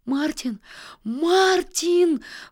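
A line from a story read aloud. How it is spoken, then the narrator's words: Terrified shout. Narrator (Russian): в ужасе закричал Нильс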